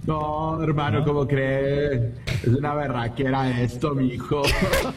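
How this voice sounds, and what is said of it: Put-on Colombian Spanish accent, somewhat convincing. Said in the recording (Spanish): “si le sale o no le sale, el acento colombiano ... Sí le sale poquito.”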